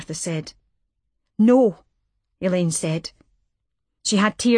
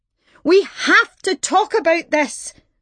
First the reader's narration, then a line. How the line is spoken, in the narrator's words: Martha shouted after her